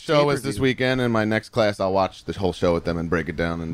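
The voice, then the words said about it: Long Island accent. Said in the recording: “your Long Island accent”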